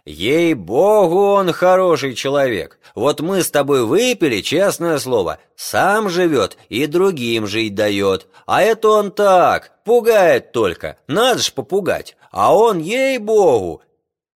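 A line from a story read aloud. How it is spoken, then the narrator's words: Drunken shouting. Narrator (Russian): они подвыпили, и Афанасий пьяным голосом кричал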